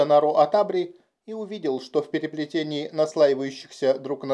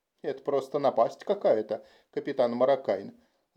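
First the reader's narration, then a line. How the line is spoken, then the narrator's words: Grumbling mutter. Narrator (Russian): буркнул он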